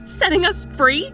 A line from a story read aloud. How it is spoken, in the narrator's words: I cried